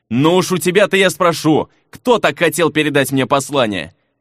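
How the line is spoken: Muttered, then loud yell. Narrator (Russian): пробормотал и во весь голос заорал

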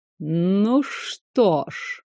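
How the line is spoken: Purring drawl, lord. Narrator (Russian): мурлыкающе протянул первый лорд

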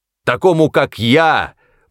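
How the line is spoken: Shouting. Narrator (Russian): прокричал

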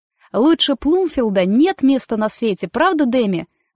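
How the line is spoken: Exclamation. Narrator (Russian): воскликнула Дейзи

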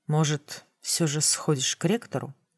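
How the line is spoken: Plain. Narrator (Russian): спросил некромант

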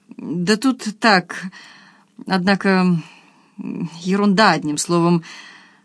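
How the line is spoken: Mumbling. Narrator (Russian): замямлил Андрей Владимирович

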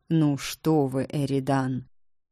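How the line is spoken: Measured, calm. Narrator (Russian): размеренно и спокойно ответил Викториан

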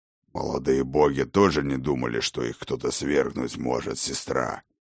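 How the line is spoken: Growled. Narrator (Russian): прорычал Ракот

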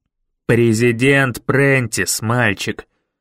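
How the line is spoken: Growling man. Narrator (Russian): прорычал мистер Коллинз

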